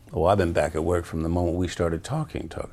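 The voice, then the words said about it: Put-on Southern drawl. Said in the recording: “Kevin Spacey doing a southern accent? ... he's still got this fun drawl going ... Southern bro.”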